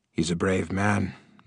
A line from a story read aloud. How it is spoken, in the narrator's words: murmured the king